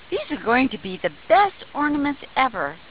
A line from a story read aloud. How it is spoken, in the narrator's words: exclaimed Bonnie